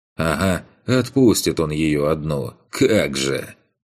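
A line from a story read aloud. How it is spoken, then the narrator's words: Scoffing to oneself. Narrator (Russian): Хмыкнул про себя я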